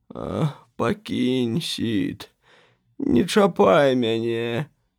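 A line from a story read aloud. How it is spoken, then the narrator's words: Pitiful moan. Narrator (Belarusian): Том жаласна прастагнаў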